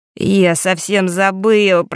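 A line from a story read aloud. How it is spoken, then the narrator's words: Groan. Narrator (Russian): простонал Марк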